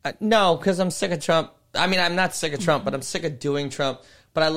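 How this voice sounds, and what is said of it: Usual voice. Nothing is said of it.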